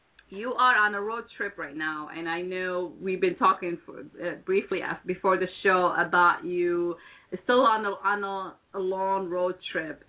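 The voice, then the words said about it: Hoarse, fading voice. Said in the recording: “my voice is, I'm losing my voice”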